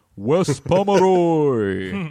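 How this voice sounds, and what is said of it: Booming video game announcer voice. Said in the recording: “I need to say his name in the Super Smash Brothers announcer voice.”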